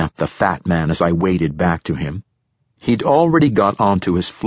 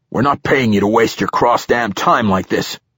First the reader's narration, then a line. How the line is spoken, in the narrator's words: growled from around a thick cigar